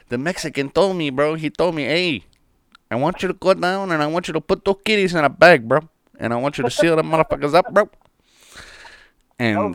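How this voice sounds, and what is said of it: Poor put-on Cuban accent. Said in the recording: “that's like a shitty Cuban accent ... I've been trying my impressions, man, but they're not great”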